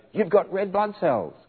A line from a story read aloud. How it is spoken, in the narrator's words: a colleague took one look at them and shouted